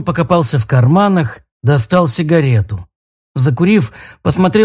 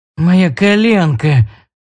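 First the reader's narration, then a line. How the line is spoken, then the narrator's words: Moaned in pain. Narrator (Russian): Леон застонал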